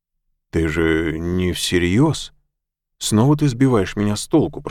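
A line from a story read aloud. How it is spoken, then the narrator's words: Groaning. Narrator (Russian): простонал маг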